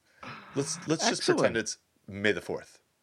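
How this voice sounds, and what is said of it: Imitates another person's voice. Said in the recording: “kind of in a Gordon Hayburn-esque accent ... That's not Gordon. Your Matthew McConaughey is way better”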